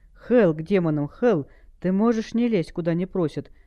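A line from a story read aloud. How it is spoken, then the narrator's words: Growling. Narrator (Russian): прорычал стилет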